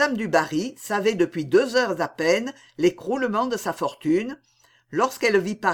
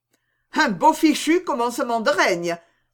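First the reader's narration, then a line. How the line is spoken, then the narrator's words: Woman exclaiming. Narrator (French): s'écria la comtesse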